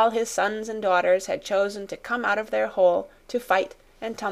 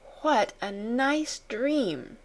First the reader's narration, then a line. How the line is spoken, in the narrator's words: she murmured